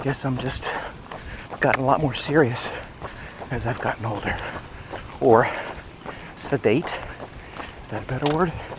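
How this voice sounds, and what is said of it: Out of breath while running. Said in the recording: “I think I'm running a little too fast here... Maybe that's why I'm a little out of breath.”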